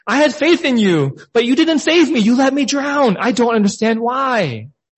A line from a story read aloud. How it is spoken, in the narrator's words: he exclaimed